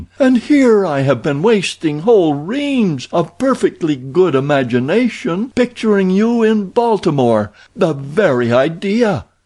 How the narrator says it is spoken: cried the equally astonished

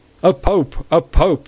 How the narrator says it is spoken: they cried

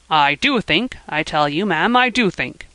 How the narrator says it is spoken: snapped the old gentleman

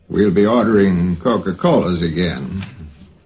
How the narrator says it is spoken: Carl said in his slow drawl

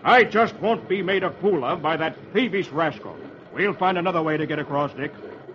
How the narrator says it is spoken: Kemble thunders

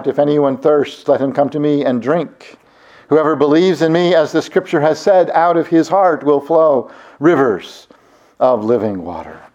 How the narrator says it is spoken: Jesus cried out

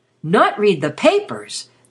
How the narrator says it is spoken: they exclaimed together

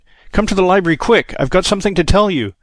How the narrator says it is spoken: he cried

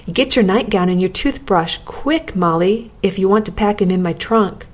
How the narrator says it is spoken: he exclaimed

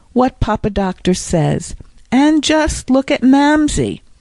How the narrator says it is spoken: she cried beneath her breath

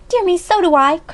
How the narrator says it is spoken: cried Alexia

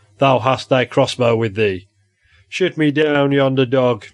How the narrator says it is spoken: he cried

